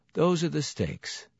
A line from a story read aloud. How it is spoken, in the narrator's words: I said in my dead voice